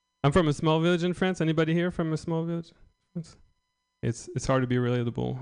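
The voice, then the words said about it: French accent. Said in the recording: “Can you hear my accent, too? ... I'm just French.”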